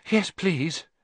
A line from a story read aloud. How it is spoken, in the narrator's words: Harry panted